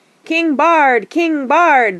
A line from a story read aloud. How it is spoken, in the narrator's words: they shouted